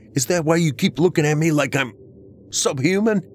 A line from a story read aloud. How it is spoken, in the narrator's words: I shouted at her